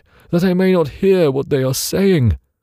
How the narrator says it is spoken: cried

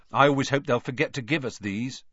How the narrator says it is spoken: said Fred Weasley, sadly

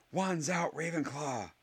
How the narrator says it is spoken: shouted Michael Corner

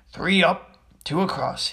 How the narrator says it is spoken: he muttered

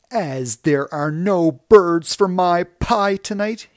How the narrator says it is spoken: shouted

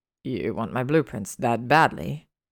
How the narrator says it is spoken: He sneered, disgusted

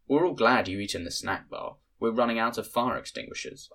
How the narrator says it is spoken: I said

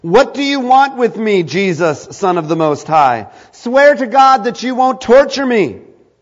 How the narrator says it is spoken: shouted at the top of his voice

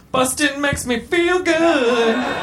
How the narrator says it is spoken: He came so hard that he foolishly exclaimed

